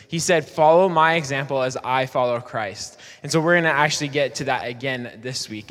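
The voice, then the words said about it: Slightly worn-out, strained voice. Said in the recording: “my voice is a little shot.”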